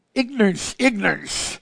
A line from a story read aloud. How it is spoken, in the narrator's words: Gog retorted angrily